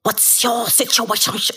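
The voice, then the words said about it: Put-on Asian accent. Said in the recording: “doing it in an Asian accent”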